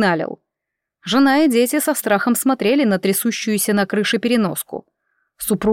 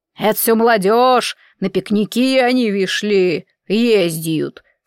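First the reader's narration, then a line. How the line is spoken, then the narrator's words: Sarcastic hiss. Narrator (Russian): саркастически прошипел Федорович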